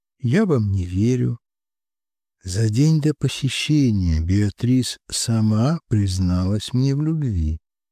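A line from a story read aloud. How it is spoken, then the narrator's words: Sigh, calm restrained voice. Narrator (Russian): Я вздохнула, сдерживая внутренний взрыв, спокойно произнесла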